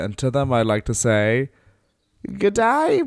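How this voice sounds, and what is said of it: Put-on Australian accent. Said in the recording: “impressed by the accent.”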